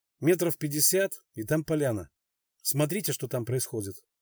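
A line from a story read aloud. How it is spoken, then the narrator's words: Quiet. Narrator (Russian): Тихо сказал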